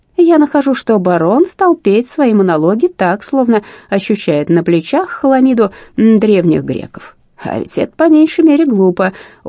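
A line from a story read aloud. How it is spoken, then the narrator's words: Sarcastic laugh. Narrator (Russian): он саркастически рассмеялся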